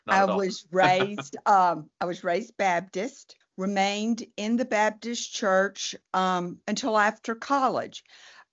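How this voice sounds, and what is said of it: Southern American accent. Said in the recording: “I was raised in Alabama, as you can probably discern from my accent.”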